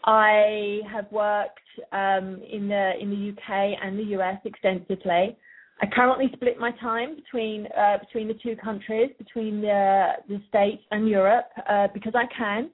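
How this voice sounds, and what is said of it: British accent. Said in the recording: “as you can tell from my accent probably, I am originally from the UK”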